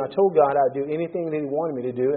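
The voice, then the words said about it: American accent. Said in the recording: “because of my accent... people say, so what part of the United States are you from?”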